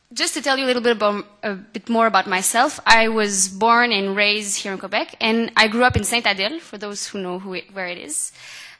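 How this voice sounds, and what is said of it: French-Canadian francophone accent. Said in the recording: “as you can hear with my accent, I'm a francophone”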